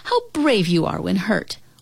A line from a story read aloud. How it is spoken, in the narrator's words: Mother cried